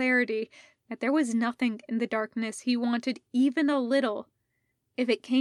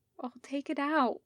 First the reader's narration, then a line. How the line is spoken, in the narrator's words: said softly, miserably, the only kind of comfort he had any idea of how to offer